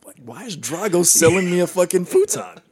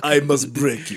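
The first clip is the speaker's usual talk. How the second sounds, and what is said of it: Heavy Eastern European accent impression. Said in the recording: “crazy Eastern Bloc European ... heavy accent ... Sound like Borat, dude”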